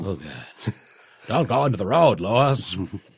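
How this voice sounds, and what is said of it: Herman Munster impression accent. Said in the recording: “I am in love with that accent. ... Herman Munster.”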